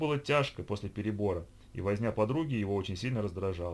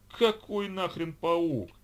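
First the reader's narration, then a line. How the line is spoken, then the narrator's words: Agonized groan. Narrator (Russian): Геранин мучительно застонал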